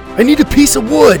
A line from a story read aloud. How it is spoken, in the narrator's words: he shouted over the noise